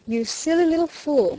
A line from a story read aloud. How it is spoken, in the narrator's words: he said